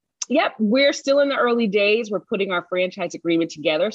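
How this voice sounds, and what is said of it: Usual voice. Nothing is said of it.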